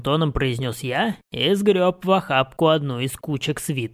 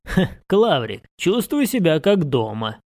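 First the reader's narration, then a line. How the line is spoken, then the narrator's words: Chuckling. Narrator (Russian): хохотнул я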